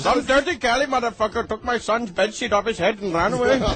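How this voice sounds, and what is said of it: Put-on Indian accent. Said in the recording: “That's an Indian accent. ... That's how they sound.”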